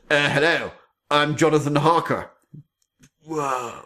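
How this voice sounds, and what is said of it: Keanu Reeves impression, attempted English accent. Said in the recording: “your accent is better than his accent.”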